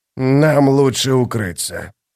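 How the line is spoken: Snorting. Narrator (Russian): Фелисин хмыкнула

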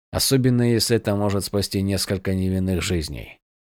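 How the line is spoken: Muttering under breath. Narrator (Russian): пробормотал Ронин себе под нос, обращаясь к Броксу

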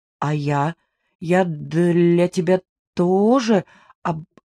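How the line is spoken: Embarrassed heavy stutter. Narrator (Russian): Он почему-то покраснел и, сильно заикаясь, произнес

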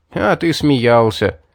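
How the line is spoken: Chuckling. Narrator (Russian): хохотнув, Грин

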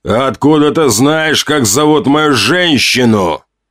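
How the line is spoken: Growl. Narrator (Russian): прорычал Ранд

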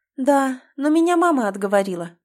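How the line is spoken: Sighing. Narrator (Russian): вздохнула вслух

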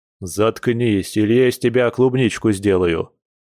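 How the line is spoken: Growled. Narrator (Russian): рыкнул Дима

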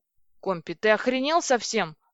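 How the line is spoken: Yelling. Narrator (Russian): завопил Федя

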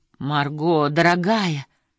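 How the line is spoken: Frightened exclamation, mother. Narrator (Russian): испуганно воскликнула мама

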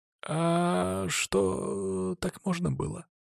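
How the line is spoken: Quiet drawl. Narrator (Russian): тихо протянул Велизар

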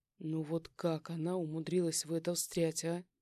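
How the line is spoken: Heavy relieved sigh. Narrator (Russian): тяжело вздохнул, чувствуя, как напряжение медленно отпускает

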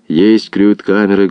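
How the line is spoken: Muffled reply from below. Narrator (Russian): глухо отвечали из погребов

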